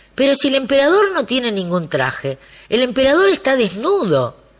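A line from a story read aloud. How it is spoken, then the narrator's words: Child exclaiming. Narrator (Spanish): un niño exclamó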